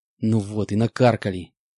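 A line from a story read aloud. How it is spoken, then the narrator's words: Hissed. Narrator (Russian): прошипел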